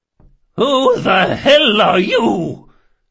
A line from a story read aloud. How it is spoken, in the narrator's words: she bellowed